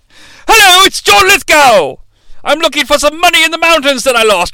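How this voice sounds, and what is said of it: Yelling, sort of English accent impression. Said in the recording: “I gave him sort of an English accent, but he's yelling all the time ... It's a really shitty John Lithgow”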